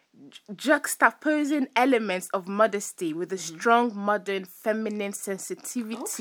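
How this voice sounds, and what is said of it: French accent. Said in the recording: “Sorry, I have my French accent when I speak ... I love your French accent”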